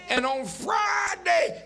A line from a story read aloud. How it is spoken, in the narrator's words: they shouted